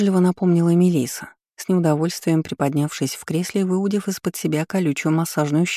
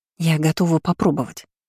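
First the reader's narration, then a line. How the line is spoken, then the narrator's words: Whispered. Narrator (Russian): произнесла шепотом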